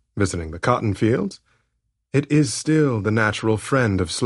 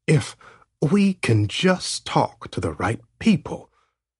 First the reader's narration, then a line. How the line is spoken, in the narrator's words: Heston whispered